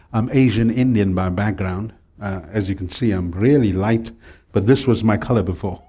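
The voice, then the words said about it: British-sounding South African accent. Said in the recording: “I talk with the British twang”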